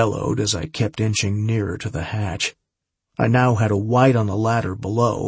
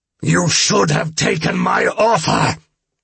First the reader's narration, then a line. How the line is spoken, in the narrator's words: the vampire roared